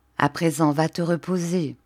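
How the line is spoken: Plain. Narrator (French): dit-il

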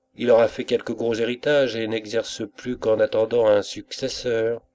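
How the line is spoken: Agitated, tipsy murmur. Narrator (French): murmurai-je, très énervé par les fumées du punch

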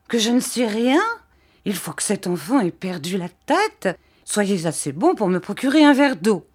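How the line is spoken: Exclaiming. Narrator (French): s'écria mistress Markleham

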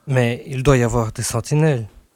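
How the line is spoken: Plain. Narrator (French): dit-il

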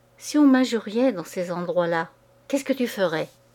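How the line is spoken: Swaggering tone. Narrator (French): Il répondait d'un ton crâne

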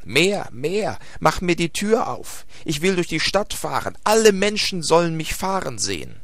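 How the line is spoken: Screaming. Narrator (German): schrie Hevelmann

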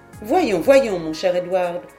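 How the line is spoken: Exclaimed. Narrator (French): s'écria Lady Glenarvan

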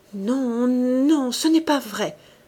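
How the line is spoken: Panicked pleading stammer. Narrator (French): balbutia-t-elle, suppliante, affolée

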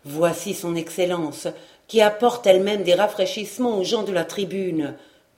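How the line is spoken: Crowd murmuring in hall. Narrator (French): murmura-t-on dans la salle

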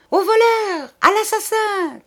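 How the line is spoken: Shouted. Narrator (French): cria Betty

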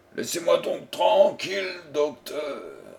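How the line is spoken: People shouting. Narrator (French): criait-on

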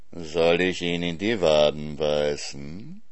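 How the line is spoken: Purring fox. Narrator (German): schnurrte der Fuchs

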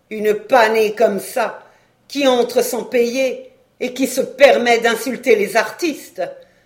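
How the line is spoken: Cashier grumbling. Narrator (French): grommelait la caissière

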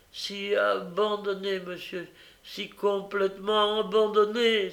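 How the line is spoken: Child crying out. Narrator (French): s'écria l'enfant

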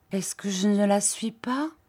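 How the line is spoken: Muffled murmur. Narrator (French): Elle murmura à travers ses doigts

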